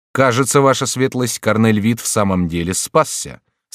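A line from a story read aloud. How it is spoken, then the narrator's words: Plain. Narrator (Russian): сказал офицер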